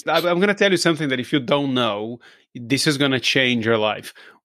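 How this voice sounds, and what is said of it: Brazilian accent in English. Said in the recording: “We think our accent is horrible, right? So I'm from Brazil. I don't sound like an English person or an American person.”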